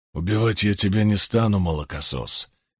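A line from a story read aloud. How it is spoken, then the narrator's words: Low hoarse, courteous. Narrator (Russian): низким и сиплым голосом проговорил он, но не без учтивости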